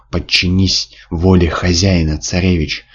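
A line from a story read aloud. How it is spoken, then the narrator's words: Hissing creature. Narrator (Russian): шипело ужасное существо, еще 5 минут назад бывшее Шамашем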